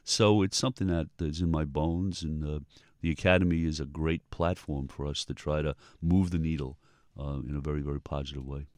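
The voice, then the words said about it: New York Bronx accent. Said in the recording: “a New York native, if you can't tell from the accent ... a Bronx native”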